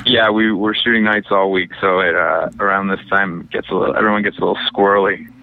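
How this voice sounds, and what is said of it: Tired-sounding voice. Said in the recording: “you sound so tired right now”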